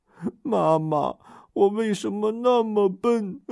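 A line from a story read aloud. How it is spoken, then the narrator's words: Crying sadly. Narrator (Chinese): 阿黄扑到妈妈的怀里，伤心的哭起来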